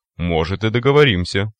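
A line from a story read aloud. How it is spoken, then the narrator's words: Magnanimous snort. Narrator (Russian): великодушно хмыкнул майор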